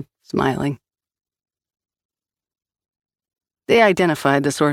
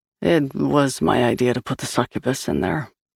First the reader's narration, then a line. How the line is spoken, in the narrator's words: Liam said sadly